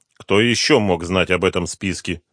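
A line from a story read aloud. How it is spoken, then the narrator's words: Grim question. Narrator (Russian): мрачно спросил генерал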